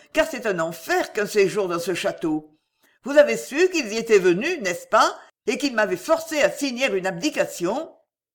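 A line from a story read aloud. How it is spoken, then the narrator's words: Exclaimed. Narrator (French): s'écria la reine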